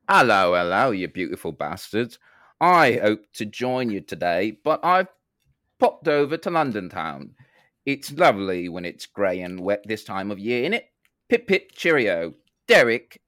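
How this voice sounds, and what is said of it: Fake posh English accent. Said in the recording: “Why is he putting on a fake accent? ... After everything the English have done for the world.”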